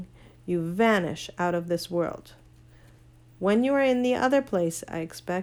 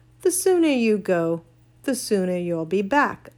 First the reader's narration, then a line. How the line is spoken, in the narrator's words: Uncle Andrew said cheerfully